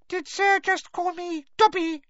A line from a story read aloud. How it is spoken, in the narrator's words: squeaked the elf curiously from between its fingers